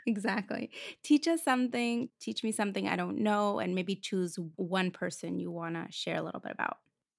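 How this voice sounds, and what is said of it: Russian accent in English. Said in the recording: “I grew up in Moscow, Russia. ... Hence the beautiful accent.”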